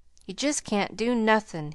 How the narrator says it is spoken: he resumed wearily, after a moment's silence

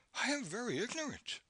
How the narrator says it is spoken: she pleaded

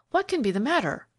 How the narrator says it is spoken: cried the young man

